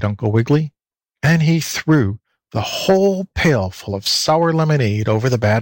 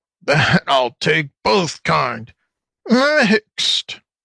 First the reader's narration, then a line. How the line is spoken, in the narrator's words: chuckled the fox, trying to be funny